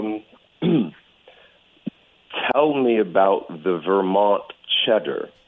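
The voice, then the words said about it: Put-on American accent. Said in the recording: “Can you say something in an American accent?”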